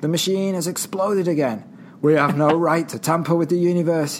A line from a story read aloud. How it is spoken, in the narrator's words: exclaims